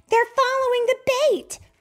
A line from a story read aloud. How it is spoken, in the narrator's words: Claire shouted